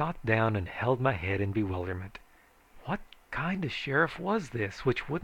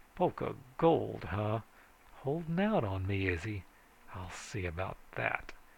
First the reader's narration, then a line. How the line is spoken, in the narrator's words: muttering